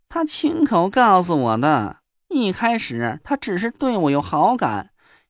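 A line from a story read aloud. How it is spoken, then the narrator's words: Smiling. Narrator (Chinese): 那若兰笑着说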